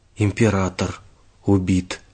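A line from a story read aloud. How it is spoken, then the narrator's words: Whisper. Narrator (Russian): прошептал он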